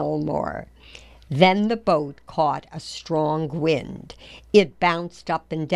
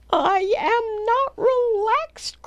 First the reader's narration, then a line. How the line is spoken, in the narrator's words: cried Poppleton